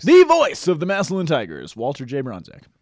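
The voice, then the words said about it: Radio announcer voice. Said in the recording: “he's got a good radio voice. I just wished I could do that ... I think you have a great radio voice”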